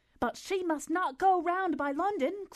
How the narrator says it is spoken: cried Marianne in the same hurried manner

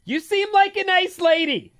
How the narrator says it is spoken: I yelled

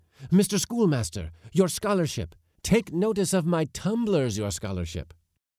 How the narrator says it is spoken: the pigeon sellers shout

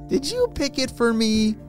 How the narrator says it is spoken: Ellie laughed

